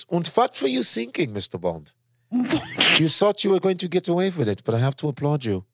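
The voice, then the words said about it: Put-on German villain accent. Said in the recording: “German accent ... They just make good villains”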